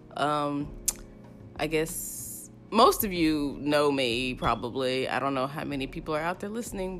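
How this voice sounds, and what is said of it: Weird-sounding voice after crying. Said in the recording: “I'm sorry if my voice sounds weird. I've been crying today.”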